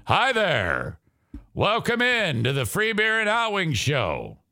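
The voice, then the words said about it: Imitates a radio host's voice. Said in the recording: “This is my impression of the Free Beer and Hot Wings show with no Joe.”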